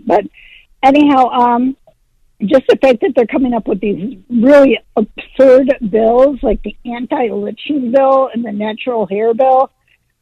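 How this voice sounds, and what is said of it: Hoarse, fading voice. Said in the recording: “Got a bit of a, I'm losing my voice a little bit.”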